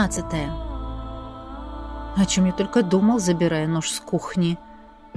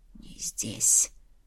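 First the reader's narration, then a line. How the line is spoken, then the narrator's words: Whisper. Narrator (Russian): прошептал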